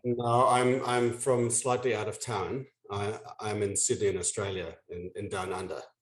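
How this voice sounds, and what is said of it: Non-American accent, Australian. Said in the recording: “That's not a Brooklyn accent I hear”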